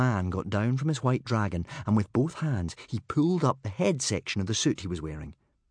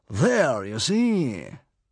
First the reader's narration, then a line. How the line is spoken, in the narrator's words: said the man triumphantly